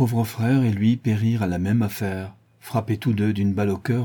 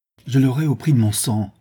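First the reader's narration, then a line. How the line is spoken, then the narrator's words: Exclaiming. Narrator (French): s'écria M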